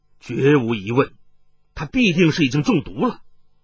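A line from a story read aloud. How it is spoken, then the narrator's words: Deep, grave voice. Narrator (Chinese): 雷小雕沉声说道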